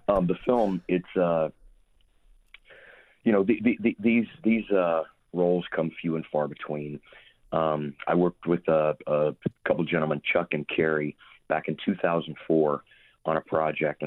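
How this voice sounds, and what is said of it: Hoarse voice. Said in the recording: “I'm hoarse ... I'm a little hoarse”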